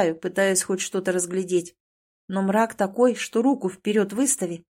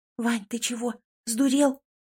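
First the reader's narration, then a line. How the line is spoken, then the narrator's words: Frightened hissing whisper-shout. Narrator (Russian): Свистящим, испуганным шепотом орет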